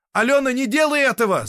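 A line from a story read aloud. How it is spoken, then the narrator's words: Shout. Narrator (Russian): закричал Сергей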